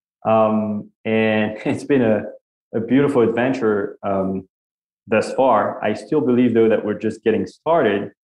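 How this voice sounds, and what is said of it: French-accented English. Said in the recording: “As you can hear from my accent, I grew up in Paris, France.”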